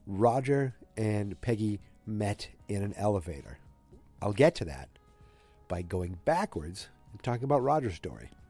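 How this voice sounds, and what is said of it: Congested, slightly deeper voice. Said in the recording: “I sound like I'm fully filling up... I've been battling a cold... my voice is a little deeper, a little cooler... I've got a little deeper voice”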